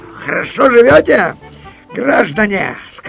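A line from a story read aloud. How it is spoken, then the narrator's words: Loud and cheerful. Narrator (Russian): сказал он громко и весело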